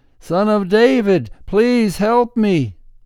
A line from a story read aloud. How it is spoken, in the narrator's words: he began shouting even louder